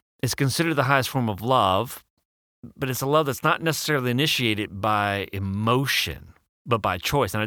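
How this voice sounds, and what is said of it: Speaks with a noticeable accent. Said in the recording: “My accent just makes it very difficult to pronounce certain words.”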